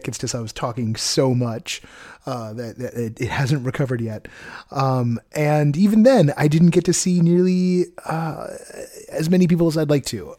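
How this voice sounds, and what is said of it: Slightly hoarse, worn-out voice. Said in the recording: “You can still hear that my voice is a little blown out from the weekend. No, I'm not sick.”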